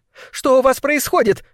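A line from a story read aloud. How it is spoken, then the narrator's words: Shouting. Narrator (Russian): кричала она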